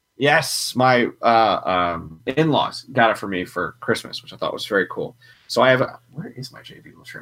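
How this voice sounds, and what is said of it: Gravelly voice from a cold. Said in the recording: “If you can't tell already by my voice, I have a cold ... I can hear it like getting more gravelly. I sound like I've been smoking my entire life.”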